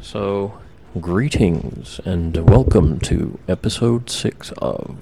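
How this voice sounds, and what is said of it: Public radio announcer voice. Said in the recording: “That was my fucking NPR voice.”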